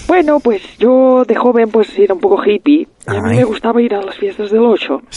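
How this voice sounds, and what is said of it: Catalan accent in Spanish. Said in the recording (Spanish): “¿tiene usted acento catalán? ... Sí, tengo antepasados catalanes.”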